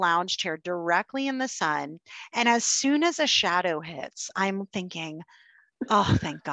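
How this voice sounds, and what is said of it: Usual voice. Nothing is said of it.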